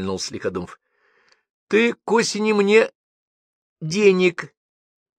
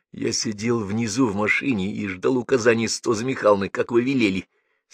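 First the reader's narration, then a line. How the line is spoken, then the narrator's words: Calm reply. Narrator (Russian): спокойно ответил тот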